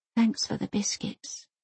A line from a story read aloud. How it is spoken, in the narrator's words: whispers Elsa